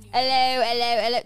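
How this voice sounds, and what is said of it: Put-on Cockney accent. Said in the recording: “accent ... That's Cockney.”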